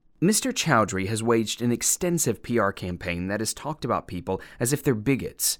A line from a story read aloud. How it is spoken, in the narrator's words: the woman said